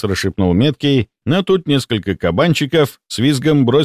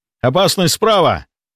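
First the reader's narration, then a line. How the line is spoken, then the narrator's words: Shouted warning. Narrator (Russian): предостерегающе закричал я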